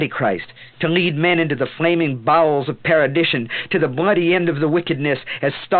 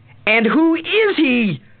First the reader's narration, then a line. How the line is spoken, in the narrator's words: She screamed